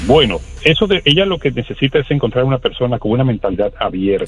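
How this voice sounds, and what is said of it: Announcer-like broadcaster voice. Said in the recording (Spanish): “con esa voz de locutor.”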